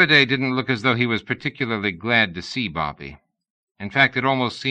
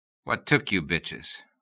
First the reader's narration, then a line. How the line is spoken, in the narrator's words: the wehrman asked